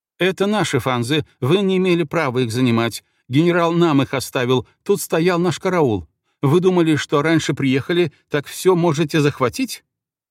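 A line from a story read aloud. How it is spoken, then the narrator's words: Rapid agitated angry torrent. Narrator (Russian): взволнованно сыпала словами, слышалось только быстрое злобное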